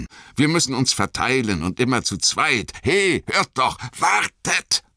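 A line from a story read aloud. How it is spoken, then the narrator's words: Shouted. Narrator (German): schrie Aragorn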